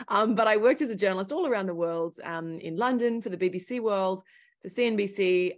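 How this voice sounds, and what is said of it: Thick Australian accent. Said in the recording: “Originally, I'm Australian, hence my thick accent.”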